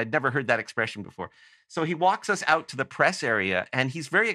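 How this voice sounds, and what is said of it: Usual voice. Nothing is said of it.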